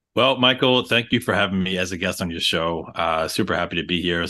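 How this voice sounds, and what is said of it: New York accent. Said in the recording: “I'm born and raised in New York. I don't know if you could hear it in the accent at all ... as a New Yorker”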